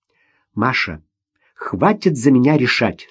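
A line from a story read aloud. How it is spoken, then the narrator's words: Stern. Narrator (Russian): строго сказала она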